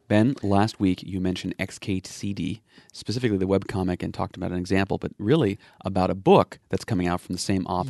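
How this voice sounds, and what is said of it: Deep voice with a cold. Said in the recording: “you sound really nice today ... I have a cold. ... My deep.”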